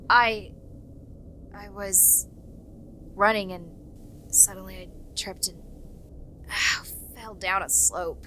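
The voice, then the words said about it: Strange, halting voice. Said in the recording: “You sound weird.”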